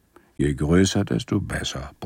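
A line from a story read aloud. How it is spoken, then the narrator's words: Grumbling, low voice. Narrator (German): brummte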